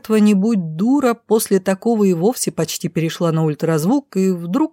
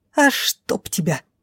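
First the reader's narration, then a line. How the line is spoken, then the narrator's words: Hiss. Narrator (Russian): прошипела брюнетка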